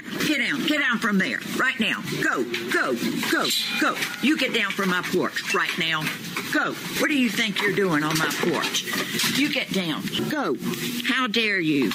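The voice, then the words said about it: Stern, commanding teacher voice. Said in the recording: “the teacher voice is real”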